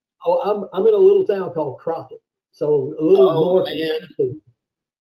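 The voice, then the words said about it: Texan accent. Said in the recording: “it's quite nice to hear a Texan accent again”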